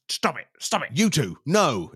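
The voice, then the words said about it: Loud commanding shout. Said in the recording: “in your biggest voice”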